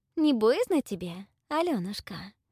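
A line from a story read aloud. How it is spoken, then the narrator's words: Sweet-voiced question. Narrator (Russian): Сладким голосом спросила Истома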